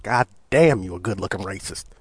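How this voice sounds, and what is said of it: Put-on Southern accent. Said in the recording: “There I go again with that southern accent.”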